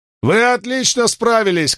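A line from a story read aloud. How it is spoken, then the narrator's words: Shout. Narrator (Russian): крикнул он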